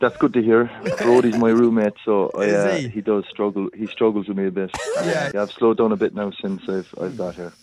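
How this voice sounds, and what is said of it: Irish accent. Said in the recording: “He's obviously from Ireland ... You'll have trouble understanding him ... a cool accent ... It's a great accent”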